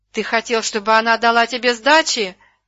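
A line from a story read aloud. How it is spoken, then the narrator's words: Yelling. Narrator (Russian): орал Дрозд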